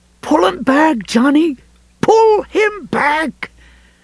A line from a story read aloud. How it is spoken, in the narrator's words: Ralph screaming